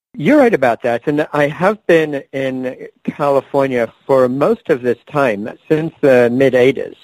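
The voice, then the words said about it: Mixed, hard-to-place English-origin accent. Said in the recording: “I was born and raised in England... somehow my accent managed to get kind of scrambled, so no one can quite place it when they hear me speak”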